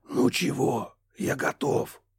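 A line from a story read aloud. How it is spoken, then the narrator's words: Loud whisper from behind. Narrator (Russian): Громким шепотом выдохнули за спиной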